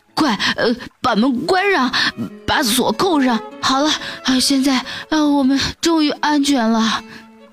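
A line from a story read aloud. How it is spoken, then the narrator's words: Exhausted breathless panting. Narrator (Chinese): 累得上气不接下气，老大一边喘着气，一边说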